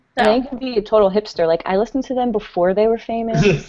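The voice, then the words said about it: Imitated hipster voice. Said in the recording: “best imitation of a hipster that I've heard in a long time”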